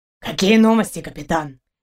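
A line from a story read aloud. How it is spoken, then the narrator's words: Quiet inquiry. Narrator (Russian): негромко осведомился Каранец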